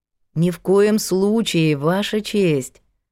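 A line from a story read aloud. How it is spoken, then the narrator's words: Gentle singsong. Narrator (Russian): ласково и напевно говорила Елена Кузнецова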